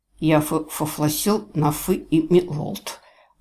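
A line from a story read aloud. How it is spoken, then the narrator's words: Insolent doglike lisp. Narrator (Russian): прошепелявил Джейвидж, скалясь нагло и совершенно по-собачье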